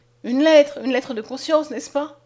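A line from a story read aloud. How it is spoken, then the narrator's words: Exclaimed. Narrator (French): s'écria-t-elle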